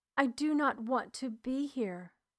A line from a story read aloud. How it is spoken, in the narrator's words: Beaten, turned from him and cried